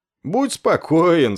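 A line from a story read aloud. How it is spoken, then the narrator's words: Smug snorting assurance. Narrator (Russian): снова самодовольно хмыкнув, уверил его Афры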